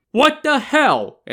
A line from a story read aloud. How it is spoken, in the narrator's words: an incredulous Yang Zhi shouted